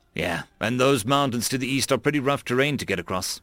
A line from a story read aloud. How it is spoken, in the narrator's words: Alder said